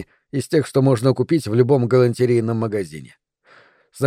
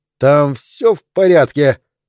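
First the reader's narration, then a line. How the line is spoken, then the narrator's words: Shouted from the doorway. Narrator (Russian): крикнул от дверей Гарсия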